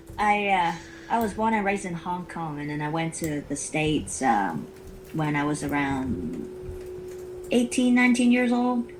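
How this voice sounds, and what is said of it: Mixed accent, possibly Southern American. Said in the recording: “is that a southern accent you've got there? ... Everybody got tell me I have a lot different accents ... I pick up a lot of different accents ... It's a very cool accent”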